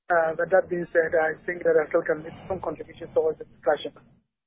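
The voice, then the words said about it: Weak, strained, partly lost voice. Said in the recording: “let me apologize for my terrible voice. I lost my voice a bit.”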